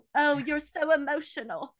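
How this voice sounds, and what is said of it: Poor imitation English accent. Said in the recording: “the English women are always talking ... I do a terrible accent”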